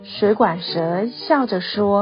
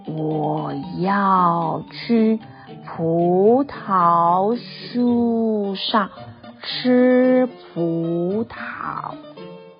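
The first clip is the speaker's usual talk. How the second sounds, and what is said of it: Very slow drawn-out speech. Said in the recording (Chinese): “蜗牛用很慢很慢的声音说”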